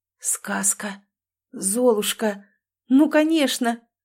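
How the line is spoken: Whisper after silence. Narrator (Russian): Некоторое время мужчина молчал, а потом прошептал

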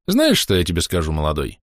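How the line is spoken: Smirking. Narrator (Russian): хмыкнул Семеныч

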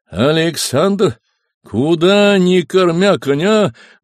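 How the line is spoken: Father's menacing shout. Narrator (Russian): грозно крикнул отец

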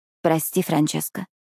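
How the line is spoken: Quiet. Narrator (Russian): тихо произношу я

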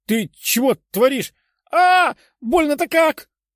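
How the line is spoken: Pained shout. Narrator (Russian): прокричал худой

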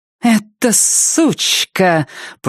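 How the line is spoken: Through gritted teeth. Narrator (Russian): процедила Кора

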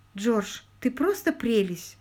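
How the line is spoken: Tender young woman. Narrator (Russian): нежно ответила девушка

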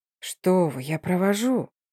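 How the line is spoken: Whisper. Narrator (Russian): Не чувствуя границ моего терпения, прошептал Шарат

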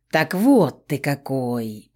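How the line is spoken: Drawn-out drawl. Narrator (Russian): протянул капитан

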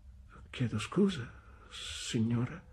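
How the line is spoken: Stammering mother. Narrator (Italian): balbettò mia madre

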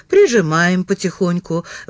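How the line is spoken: Sighing. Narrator (Russian): вздохнул Балакин

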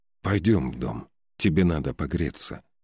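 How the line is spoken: Whisper. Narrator (Russian): прошептал конунг

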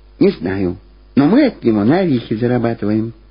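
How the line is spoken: Quiet. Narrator (Russian): так же тихо ответила Люба

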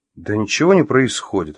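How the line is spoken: Plain. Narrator (Russian): ответил Артем

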